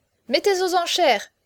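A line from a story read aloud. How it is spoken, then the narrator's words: Exclaiming. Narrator (French): s'écria Chaverny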